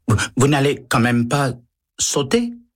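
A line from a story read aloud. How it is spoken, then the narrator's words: Stammering elevator operator. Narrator (French): balbutie le liftier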